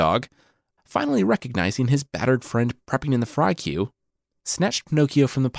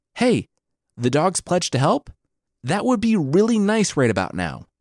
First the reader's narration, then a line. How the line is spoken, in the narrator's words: Pinocchio yelled out to his acquaintance